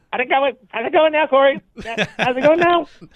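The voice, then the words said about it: Impression of a co-host's voice. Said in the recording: “Is that what I sound like? ... that's an interesting impersonation of Robbie.”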